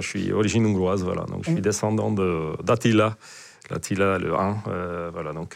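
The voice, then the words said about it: Eastern European accent. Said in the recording (French): “on sent que tu as un accent de l'Est ... c'est sûr qu'avec mon accent”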